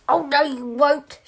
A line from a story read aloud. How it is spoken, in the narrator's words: shouted the biggest goat